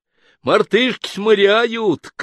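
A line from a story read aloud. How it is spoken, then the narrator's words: Young man shouting from afar. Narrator (Russian): крикнул молодой парень с оголовка плота Никите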